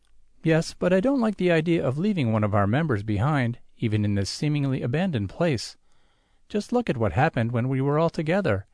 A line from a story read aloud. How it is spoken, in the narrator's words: the captain laughs sardonically